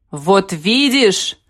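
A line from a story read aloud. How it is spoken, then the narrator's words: Shout. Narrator (Russian): крикнул Сергей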